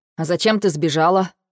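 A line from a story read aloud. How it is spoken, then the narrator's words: Cold question. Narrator (Russian): холодно спрашивает Ник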